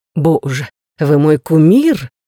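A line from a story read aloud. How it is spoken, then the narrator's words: Breathless. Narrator (Russian): выдохнула Рэйчел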